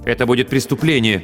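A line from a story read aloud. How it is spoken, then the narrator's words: Mother, suddenly sharp. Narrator (Russian): неожиданно резко сказала мама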